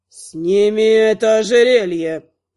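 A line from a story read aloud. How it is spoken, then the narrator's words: Demanding. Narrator (Russian): потребовал Ясон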